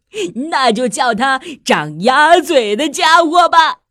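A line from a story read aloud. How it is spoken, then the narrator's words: Laughing heartily. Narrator (Chinese): 猎狗大笑着说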